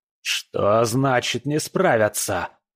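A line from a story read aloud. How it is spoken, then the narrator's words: Roar. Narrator (Russian): взревел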